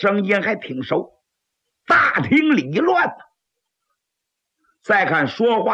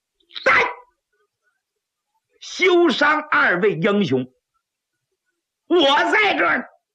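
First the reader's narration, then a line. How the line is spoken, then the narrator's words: Loud howling shout. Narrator (Chinese): 有人嗷嗷喊了一声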